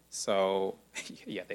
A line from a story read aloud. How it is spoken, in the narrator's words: they laugh